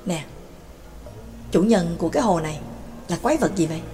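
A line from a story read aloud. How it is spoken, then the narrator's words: Whispered question. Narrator (Vietnamese): Cà Phù thì thầm hỏi nhỏ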